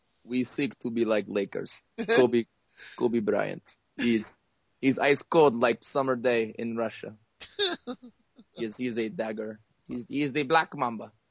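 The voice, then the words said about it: Put-on Russian accent. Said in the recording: “he has a Russian accent. Do you do a Russian accent? It's hard.”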